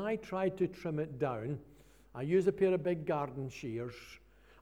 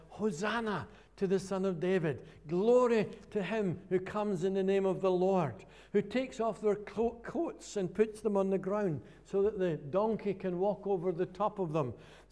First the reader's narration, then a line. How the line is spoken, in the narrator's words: cried out